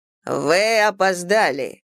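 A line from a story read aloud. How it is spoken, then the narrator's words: Steely tone. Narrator (Russian): произнес мастер стальным тоном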